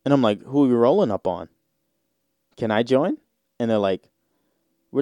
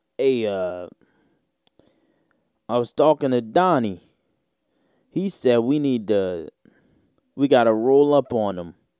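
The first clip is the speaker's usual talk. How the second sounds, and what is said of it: Put-on thick Italian mobster accent. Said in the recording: “that thick Italian accent ... you're a mobster”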